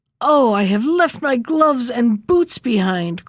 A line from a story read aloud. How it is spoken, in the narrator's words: cried Gerda